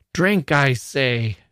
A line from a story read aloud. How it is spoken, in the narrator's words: shouted the monster